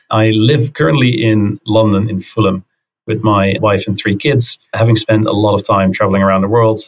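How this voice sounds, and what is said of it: Dutch accent in English. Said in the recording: “I'm originally from the Netherlands, as you can undoubtedly tell from the accent.”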